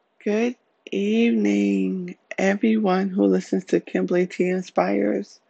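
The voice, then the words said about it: Voice strained from crying. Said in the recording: “I apologize for my voice sounding this way. ... I have been crying all day.”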